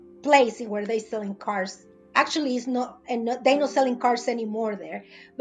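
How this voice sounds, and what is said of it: Non-native English accent. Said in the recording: “right now I have an accent ... in my English, you know, break English”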